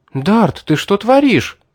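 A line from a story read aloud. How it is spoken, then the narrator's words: Alarmed exclamation. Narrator (Russian): воскликнула она, увидев, что я замахнулся на демона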